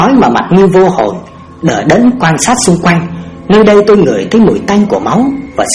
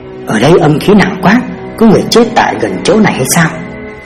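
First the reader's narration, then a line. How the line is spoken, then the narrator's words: Soft murmur. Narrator (Vietnamese): tôi khẽ nói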